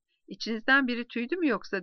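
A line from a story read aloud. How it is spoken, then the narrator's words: Asked laughing. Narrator (Turkish): diye sordu gruptan biri gülerek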